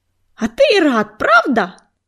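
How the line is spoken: Shrieked. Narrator (Russian): взвизгнула Златошейка

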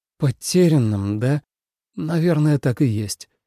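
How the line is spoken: Sighed. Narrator (Russian): вздохнул Тоби

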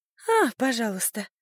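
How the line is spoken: Relieved sigh. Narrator (Russian): с облегчением вздохнула она

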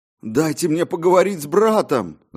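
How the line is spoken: Shouting. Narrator (Russian): закричал я

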